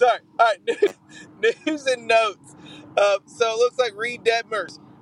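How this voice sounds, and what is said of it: Usual voice. Nothing is said of it.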